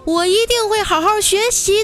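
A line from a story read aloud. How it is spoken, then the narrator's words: Loud shout. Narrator (Chinese): 大喊一声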